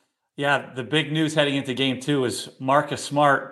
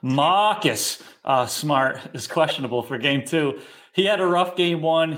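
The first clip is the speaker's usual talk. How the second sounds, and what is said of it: Put-on accent. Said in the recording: “I'm going to try an accent since I'm following Martin.”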